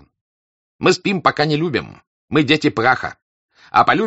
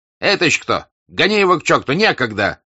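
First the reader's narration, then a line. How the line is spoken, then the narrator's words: Shout. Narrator (Russian): крикнул он на Лаврушку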